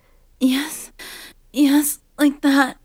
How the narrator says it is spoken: she moaned

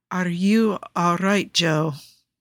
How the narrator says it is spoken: Nikki asks, his voice slurs

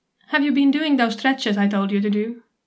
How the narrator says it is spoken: she asks me

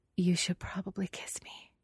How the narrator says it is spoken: she whispers

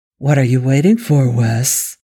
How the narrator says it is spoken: Angel purred

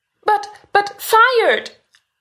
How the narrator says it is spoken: Stiles wails

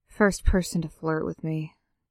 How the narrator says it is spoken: Derek grumbled

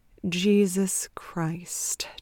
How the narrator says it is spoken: Trent said under his breath

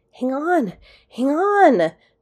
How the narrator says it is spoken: McKay gasped, coming to another halt

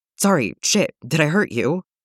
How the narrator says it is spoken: he blurts out

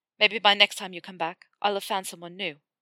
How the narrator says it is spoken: he said bitterly

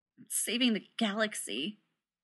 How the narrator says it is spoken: Rodney said bitterly

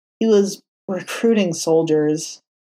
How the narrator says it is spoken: Matt said with a heavy sigh

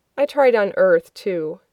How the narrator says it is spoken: John continues, sighing

